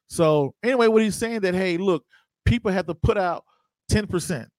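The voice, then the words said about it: Georgia accent. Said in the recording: “I can tell by the accent that you're from Atlanta ... I'm from Georgia”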